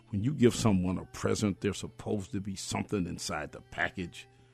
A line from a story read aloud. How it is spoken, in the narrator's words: he said harshly